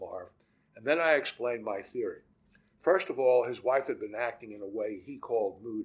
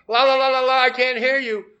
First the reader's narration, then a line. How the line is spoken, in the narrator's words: the kid who presses his hands to his ears and yells